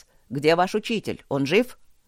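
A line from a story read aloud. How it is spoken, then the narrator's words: Shouting. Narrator (Russian): крикнул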